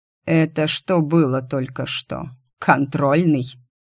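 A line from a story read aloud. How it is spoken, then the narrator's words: Grunt. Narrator (Russian): Я хмыкнул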